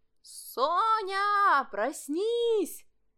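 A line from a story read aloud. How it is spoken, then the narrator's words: Two people shouting together. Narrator (Russian): закричали вдвоем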